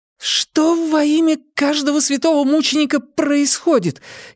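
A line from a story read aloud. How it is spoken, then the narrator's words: Frightened, irritated cry. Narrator (Russian): испуганно и раздраженно вскрикнула Нина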